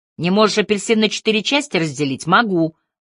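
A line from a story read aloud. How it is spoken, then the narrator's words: Snapping. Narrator (Russian): огрызнулась я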